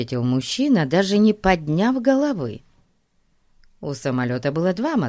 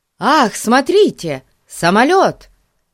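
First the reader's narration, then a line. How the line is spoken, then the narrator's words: Excited exclamation. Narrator (Russian): воскликнул он, увидев за окном низко летящий самолет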